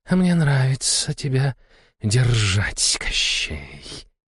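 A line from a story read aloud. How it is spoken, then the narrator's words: Predatory hiss. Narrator (Russian): прошипела она, хищно улыбаясь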